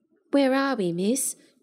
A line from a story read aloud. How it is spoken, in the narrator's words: Dodd ventured in a timid voice